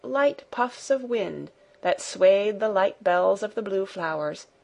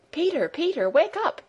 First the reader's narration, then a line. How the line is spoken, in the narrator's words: called out Heidi